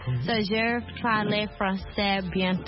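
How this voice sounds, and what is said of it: Speaks French with a foreign accent. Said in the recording (French): “on aime beaucoup son accent ... love your accent”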